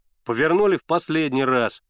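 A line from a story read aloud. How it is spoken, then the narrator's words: Loud, impatient. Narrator (Russian): громко и нетерпеливо проговорил Генка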